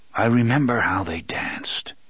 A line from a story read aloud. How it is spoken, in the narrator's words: the gunslinger said softly